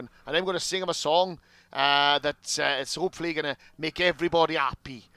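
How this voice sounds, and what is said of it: Badly done Welsh accent. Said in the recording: “Apologies to all Welsh listeners for that massacre of your accent.”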